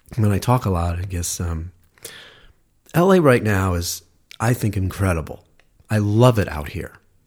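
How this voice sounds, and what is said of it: Hoarse, strained voice. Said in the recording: “I'm suddenly like losing my voice, so I apologize.”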